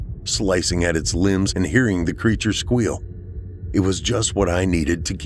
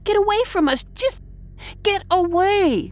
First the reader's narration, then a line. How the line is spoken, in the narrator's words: She shrieked